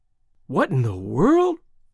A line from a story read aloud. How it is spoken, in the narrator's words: his father exclaiming